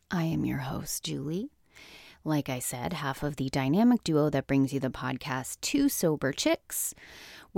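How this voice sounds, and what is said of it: Raspy voice. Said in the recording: “raspy-voiced early morning podcast”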